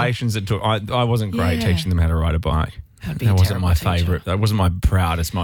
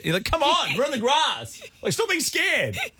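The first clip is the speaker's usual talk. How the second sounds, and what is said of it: Yelling. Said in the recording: “Why are you yelling?”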